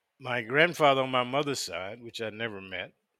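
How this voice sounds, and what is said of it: Usual voice. Nothing is said of it.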